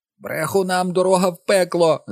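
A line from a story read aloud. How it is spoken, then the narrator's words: Screeching. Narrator (Ukrainian): заверещала Мері Дулін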